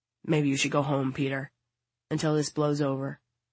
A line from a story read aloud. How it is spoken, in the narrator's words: says quietly